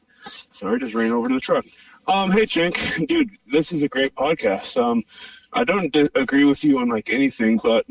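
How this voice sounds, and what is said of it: Breathless, out-of-breath speech. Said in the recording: “I'm out of breath.”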